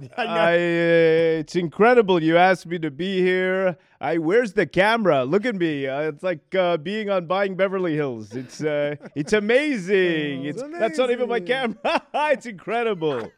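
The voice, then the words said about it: Impression of Mauricio Umansky. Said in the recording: “Mauricio Umansky ... these impersonations”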